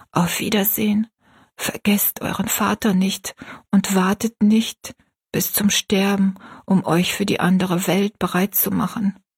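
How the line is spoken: Whispered. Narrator (German): flüsterte

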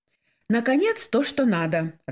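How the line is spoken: Joyful exclamation. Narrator (Russian): радостно воскликнула Светлана

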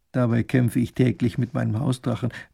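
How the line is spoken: Muttered into teacup. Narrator (German): er es in seine Teetasse murmelt

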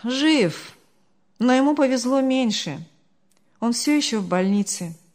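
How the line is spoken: Sighing. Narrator (Russian): вздохнул Артур

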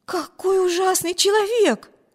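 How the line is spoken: Exclaimed. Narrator (Russian): воскликнула Эми

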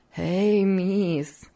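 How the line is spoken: Laughing. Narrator (Russian): все смеясь продолжала Хлоя

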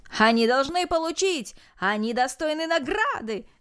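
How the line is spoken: Crowd shouting. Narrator (Russian): закричали все без исключения

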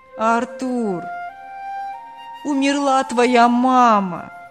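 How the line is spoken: Fake plaintive. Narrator (Russian): делано жалобно сообщил голос

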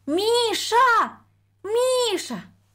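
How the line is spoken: Thin high call. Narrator (Russian): позвала она тоненьким голосом

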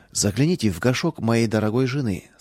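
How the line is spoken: Plain. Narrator (Russian): сказал он

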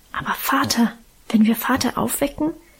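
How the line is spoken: Fearful whisper. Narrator (German): wisperte ängstlich

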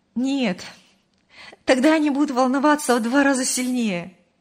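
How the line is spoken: Laughing. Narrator (Russian): рассмеялась Мария

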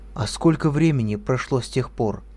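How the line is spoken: Plain. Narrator (Russian): спросила Ольга

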